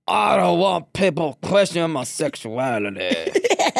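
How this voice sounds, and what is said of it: Impersonates a stereotypical straight man. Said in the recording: “let me do the correct straight person impersonation ... Yeah, that was really good.”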